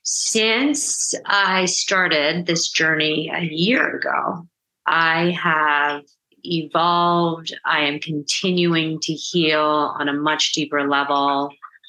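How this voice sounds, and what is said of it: Emotional, voice filling with feeling. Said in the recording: “I'm getting emotional.”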